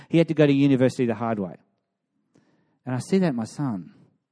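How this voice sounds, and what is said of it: Emotional voice. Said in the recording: “hear the emotion in my voice”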